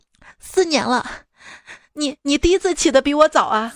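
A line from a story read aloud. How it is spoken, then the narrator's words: Choked sobbing. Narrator (Chinese): 他哽咽地说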